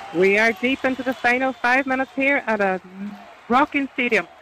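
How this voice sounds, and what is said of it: Irish Donegal accent. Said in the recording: “I'll keep with the Donegal accent.”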